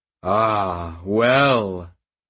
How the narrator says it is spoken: he chuckled

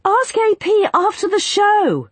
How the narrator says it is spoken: Ruin yelled over his shoulder

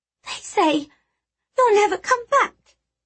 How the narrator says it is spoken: she whimpered

